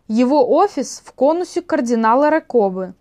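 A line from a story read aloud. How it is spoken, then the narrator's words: Plain. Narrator (Russian): ответила канонесса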